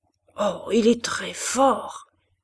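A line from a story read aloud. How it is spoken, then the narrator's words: Murmured close to ear. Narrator (French): murmura Malignon dans le cou de Madame de Berle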